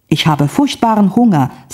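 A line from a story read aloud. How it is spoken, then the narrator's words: Plain. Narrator (German): sagte ich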